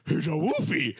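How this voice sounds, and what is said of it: Cartoon dog voice. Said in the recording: “You say the dog accent”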